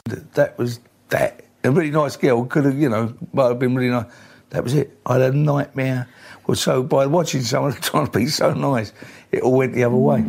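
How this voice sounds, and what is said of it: Cockney geezer accent. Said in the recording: “That's a bit of Ray Winstone there. Talking in that sort of geezer, you know, that sort of Cockney accent”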